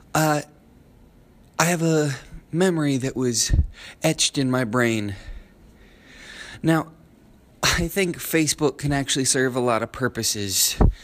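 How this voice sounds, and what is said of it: Sniffly, congested voice. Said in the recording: “Forgive my sniffling, I have a cold.”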